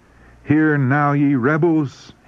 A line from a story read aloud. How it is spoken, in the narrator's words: he cried